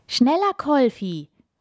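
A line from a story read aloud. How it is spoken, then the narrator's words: Called out. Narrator (German): ruft Jonas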